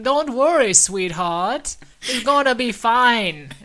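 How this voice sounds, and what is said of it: Put-on Dutch Jamaican hybrid accent. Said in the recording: “it's like a Dutch Jamaican hybrid accent... That dialect work is amazing.”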